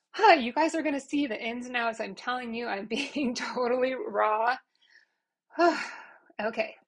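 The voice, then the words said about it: Emotional, teary voice. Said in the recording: “getting all emotional ... makes me like teary”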